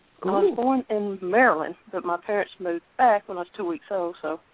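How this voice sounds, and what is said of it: Southern US accent. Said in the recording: “you have the best accent I've heard in so long ... I love a good Southern accent”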